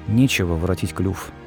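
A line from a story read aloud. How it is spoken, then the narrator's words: Glum, dejected. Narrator (Russian): уныло проговорил Гарри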